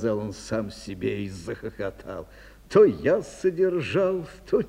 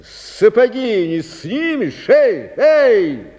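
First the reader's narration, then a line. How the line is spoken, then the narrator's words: Shout. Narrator (Russian): крикнул он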